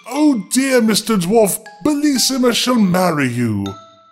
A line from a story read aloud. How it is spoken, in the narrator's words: At this dreadful sight, the poor queen, who was trembling like a dove when it sees a hawk, cried out as loud as she could